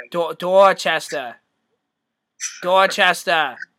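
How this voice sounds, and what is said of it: Put-on Boston accent. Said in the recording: “Boston kid ... Did I nail that accent? ... It's pretty good, dude.”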